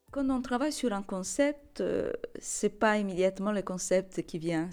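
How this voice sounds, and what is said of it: Slight Italian accent in French. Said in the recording (French): “comme on peut entendre d'ailleurs dans la façon dans laquelle je parle le français. Je parle en français avec un petit accent ... par ma langue maternelle, l'italien”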